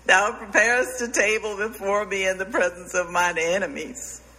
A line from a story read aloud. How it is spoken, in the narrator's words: he sobbed